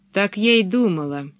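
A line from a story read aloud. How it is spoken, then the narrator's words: Gloomy. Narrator (Russian): мрачно сказала Пеппи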